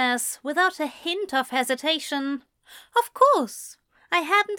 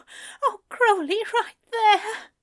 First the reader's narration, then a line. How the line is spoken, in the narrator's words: Aziraphale moans